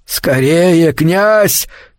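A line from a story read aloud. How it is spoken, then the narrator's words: Old man shouting. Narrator (Russian): крикнул старик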